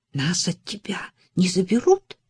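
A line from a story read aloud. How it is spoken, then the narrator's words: Whispered. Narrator (Russian): прошептал Джереми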